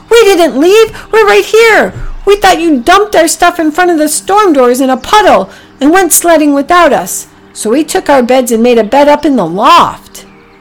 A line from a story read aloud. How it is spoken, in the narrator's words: They shouted